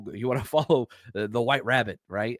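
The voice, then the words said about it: Poor impression of Morpheus' deep voice. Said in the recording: “my best Morpheus impression. That was terrible.”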